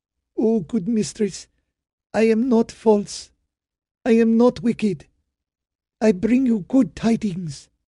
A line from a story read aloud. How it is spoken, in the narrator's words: Amrah said brokenly